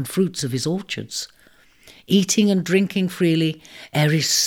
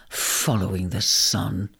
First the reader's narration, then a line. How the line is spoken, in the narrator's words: grumbled, squinting at the disappearing image